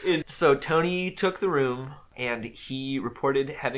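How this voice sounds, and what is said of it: Usual voice. Nothing is said of it.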